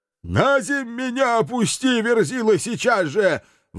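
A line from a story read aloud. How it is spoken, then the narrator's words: Yelling while struggling. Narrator (Russian): вырываясь, орал Туром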